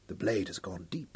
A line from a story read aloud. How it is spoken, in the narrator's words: Hal whispered